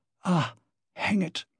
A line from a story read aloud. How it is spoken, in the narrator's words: Raskolnikov whispered with loathing and contempt, as though he did not want to speak aloud